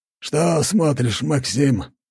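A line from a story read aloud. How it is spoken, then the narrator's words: Hoarse rasp. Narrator (Russian): прохрипел он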